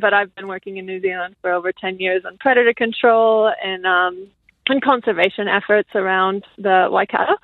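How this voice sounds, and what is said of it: American accent. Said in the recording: “I'm from the States, you might hear from the accent”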